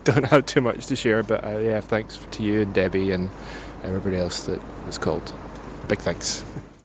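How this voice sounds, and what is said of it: Glaswegian Scottish accent. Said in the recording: “it's a voice of from Glasgow ... I would fucking remember that voice”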